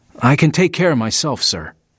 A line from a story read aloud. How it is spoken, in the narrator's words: Louis said